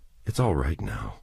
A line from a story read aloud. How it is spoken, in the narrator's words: he said gently